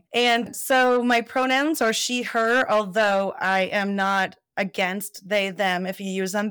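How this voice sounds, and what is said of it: Raspy voice. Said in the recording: “Excuse my raspy voice. I've had a cough for like 6 weeks.”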